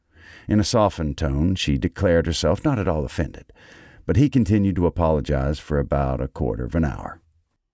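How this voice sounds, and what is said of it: Southern American accent reading. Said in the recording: “the Southern accent”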